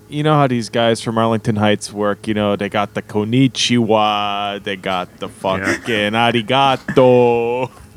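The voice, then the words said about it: Put-on Chicago accent. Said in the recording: “You clearly do the Chicago accent best of anyone here. Can you say konnichiwa in a Chicago accent?”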